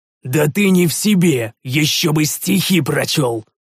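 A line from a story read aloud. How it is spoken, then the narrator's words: Growled. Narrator (Russian): прорычал я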